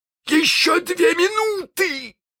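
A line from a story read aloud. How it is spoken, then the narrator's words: Shouting. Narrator (Russian): закричал он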